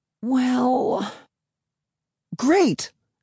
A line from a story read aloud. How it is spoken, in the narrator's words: I cried